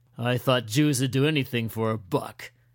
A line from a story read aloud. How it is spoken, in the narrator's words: Glenn snarled